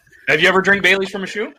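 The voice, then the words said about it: Old Greg impression. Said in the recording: “You did the voice wrong. You gotta do the voice right ... I'm old Greg's voice”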